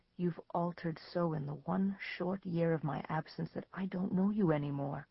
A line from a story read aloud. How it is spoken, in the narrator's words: said Joseph softly